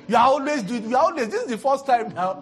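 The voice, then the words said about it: Shouting angrily. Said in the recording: “he's screaming”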